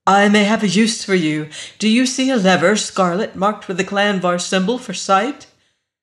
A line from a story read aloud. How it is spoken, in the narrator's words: her voice grew urgent